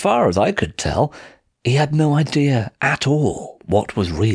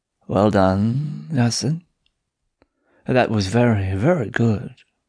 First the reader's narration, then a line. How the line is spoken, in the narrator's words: purr at me